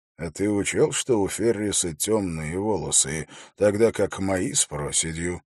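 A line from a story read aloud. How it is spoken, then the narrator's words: Plain question. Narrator (Russian): спросил Холт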